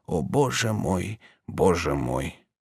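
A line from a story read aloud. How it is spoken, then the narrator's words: Barely audible. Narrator (Russian): проговорил уже чуть слышно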